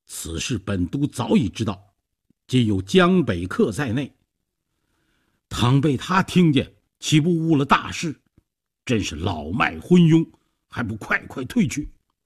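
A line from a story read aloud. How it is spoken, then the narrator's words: Angry. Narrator (Chinese): 周瑜怒道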